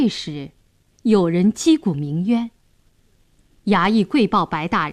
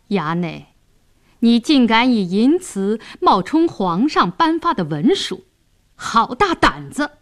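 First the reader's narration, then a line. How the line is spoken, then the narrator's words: Cold sneer. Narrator (Chinese): 白世忠冷笑道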